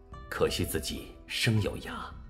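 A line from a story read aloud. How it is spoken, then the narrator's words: Weak inner sigh, gravely ill. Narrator (Chinese): 病危中，王阳明心中叹道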